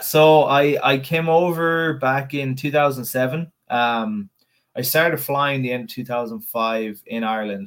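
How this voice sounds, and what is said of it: Irish accent. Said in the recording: “You can hear the Irish in your voice”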